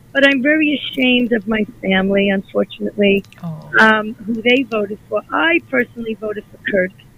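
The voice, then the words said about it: Weak, hoarse, nearly lost voice. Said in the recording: “I lost my voice”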